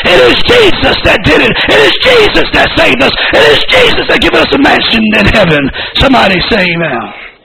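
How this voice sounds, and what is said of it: Preaching in a loud scream. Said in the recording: “why are you screaming so loud? Why is your speaker so loud?”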